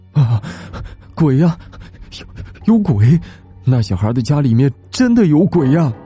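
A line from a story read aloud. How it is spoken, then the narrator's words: Panting. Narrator (Chinese): 小刘也是一边喘气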